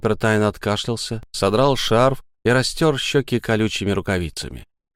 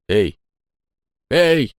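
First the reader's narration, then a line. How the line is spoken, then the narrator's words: Yell. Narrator (Russian): заорал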